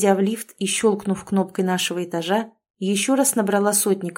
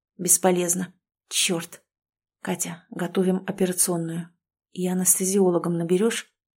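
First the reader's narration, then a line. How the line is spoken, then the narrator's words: Silent mouthed whisper. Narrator (Russian): Прошептала одними губами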